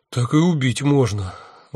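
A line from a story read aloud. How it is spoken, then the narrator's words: Sighing. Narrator (Russian): вздохнул я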